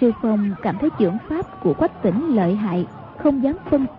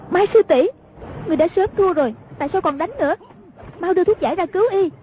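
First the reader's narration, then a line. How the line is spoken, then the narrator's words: Shout. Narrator (Vietnamese): Hoàng Dung quát lên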